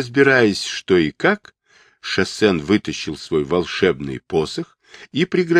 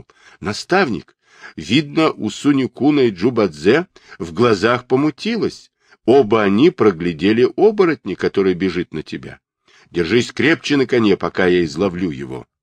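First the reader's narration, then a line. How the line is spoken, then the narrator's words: Frightened exclamation. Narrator (Russian): испуганно воскликнул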